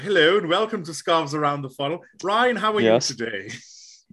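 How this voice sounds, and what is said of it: Slightly posher hosting voice. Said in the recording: “I kind of have to just slightly make it a little bit posher”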